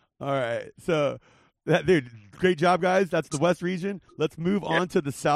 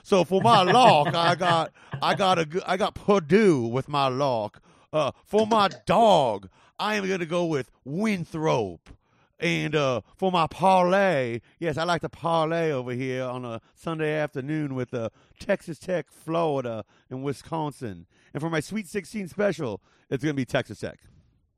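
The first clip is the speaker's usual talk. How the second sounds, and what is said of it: Put-on Southern lawyer voice. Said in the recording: “in my Southern lawyer voice.”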